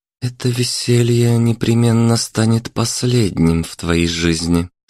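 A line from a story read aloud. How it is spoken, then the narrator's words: Hissed through clenched teeth. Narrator (Russian): сквозь зубы процедила Марина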